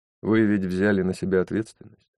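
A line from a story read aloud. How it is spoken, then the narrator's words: Calm, persuasive. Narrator (Russian): Стараясь говорить убедительно и спокойно, Джейсон произнес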